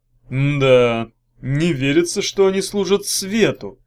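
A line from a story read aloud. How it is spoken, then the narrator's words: Drawl. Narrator (Russian): протянул Багров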